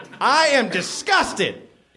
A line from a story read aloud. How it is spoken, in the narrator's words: yelled Jim